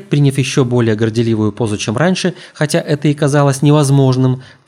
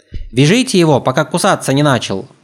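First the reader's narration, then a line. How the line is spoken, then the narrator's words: Parrot yelling treacherously. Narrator (Russian): предательски заорал попугай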